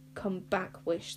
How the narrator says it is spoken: thought Zar fiercely

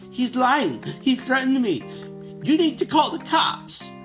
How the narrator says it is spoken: The Karen is shrieking

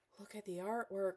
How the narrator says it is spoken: breathed

